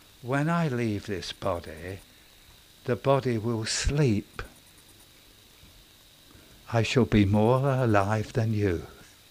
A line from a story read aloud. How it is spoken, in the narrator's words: quietly she said, almost the last thing she said